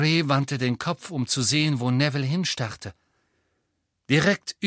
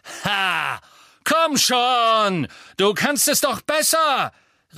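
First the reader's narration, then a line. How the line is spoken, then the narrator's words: Echoing shout. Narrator (German): rief er, und seine Stimme hallte in dem Gewölberaum wieder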